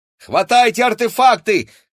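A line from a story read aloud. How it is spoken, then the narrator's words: Shouted. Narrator (Russian): крикнул Игорь близнецам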